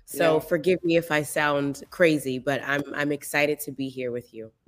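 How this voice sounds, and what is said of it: Strained, worn-out voice. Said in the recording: “I'm recovering from losing my voice from doing too much singing and talking”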